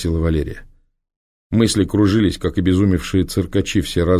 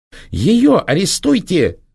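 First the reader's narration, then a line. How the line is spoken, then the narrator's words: Shrill shriek. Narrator (Russian): взвизгнула Проксима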